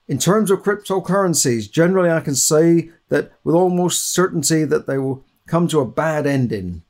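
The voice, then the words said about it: Poor imitation of another person's voice. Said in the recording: “That's my bad impression of Warren Buffett.”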